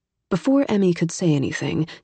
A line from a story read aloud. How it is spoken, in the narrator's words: he added firmly